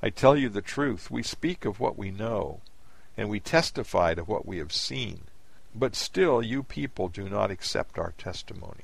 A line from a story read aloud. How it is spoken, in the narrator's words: he said sadly